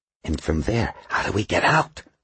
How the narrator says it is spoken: Smithback whispered

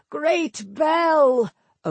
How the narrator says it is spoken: Obin cried

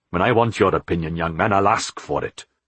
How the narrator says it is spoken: Philip snapped

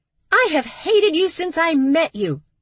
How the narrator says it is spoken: Stevie screamed in her sister's face

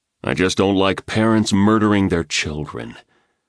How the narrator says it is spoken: he replied in a low voice

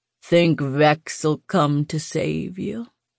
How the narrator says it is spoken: he drawled

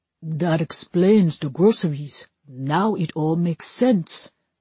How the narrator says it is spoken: one of Vinny's men mumbled

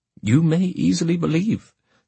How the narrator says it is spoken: said he

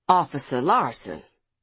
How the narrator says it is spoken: she corrected hoarsely

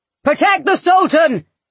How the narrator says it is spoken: he shouted

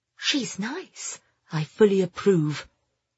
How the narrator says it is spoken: Pamela muttered

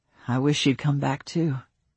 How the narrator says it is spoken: Matt muttered against his sleeping daughter's hair

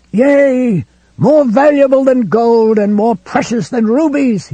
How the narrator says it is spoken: he screamed

